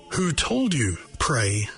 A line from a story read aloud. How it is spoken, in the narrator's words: Robespierre asked him icily